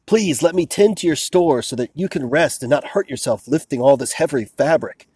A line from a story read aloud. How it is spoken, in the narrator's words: a young man from the south begged this old man